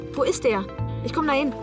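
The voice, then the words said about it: Urgent, alarmed tone. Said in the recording (German): “Du klingst ja, als ging's um Leben oder Tod.”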